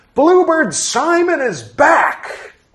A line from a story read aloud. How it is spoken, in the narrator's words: He shouted